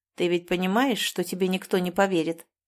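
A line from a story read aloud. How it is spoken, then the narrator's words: Plain. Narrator (Russian): сказал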